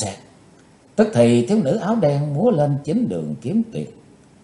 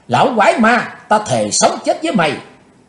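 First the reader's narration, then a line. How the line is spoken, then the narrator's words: Furious girl shouting. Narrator (Vietnamese): Tức giận bốc lên đầy mặt, thiếu nữ áo đen hét to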